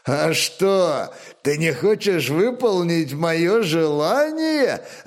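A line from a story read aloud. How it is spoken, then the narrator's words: Booming hoarse laughter. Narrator (Russian): раскатисто и хрипло расхохотался Лоденбьерн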